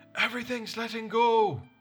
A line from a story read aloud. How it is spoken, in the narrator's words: Mausak shouted